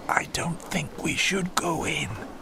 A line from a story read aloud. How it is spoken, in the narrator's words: whispered Sylvia